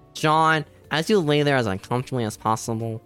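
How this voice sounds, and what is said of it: Imitates another person's voice. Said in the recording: “do your best impression of the 316 promo ... you're so good at it”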